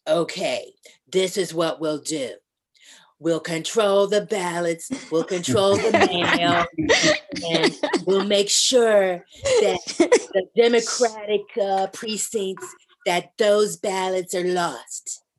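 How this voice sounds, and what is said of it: Imitates another person's voice. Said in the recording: “bravo to that impersonation. ... That was spot on. That really was. ... that was brilliant.”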